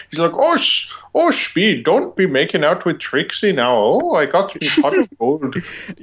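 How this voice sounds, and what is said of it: Put-on old-fashioned Irish accent. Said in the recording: “he sounds like he's like an Irish guy from the 40s ... He has this Irish accent”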